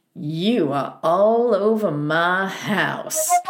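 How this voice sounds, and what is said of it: Southern accent impression. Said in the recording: “He goes in his southern accent”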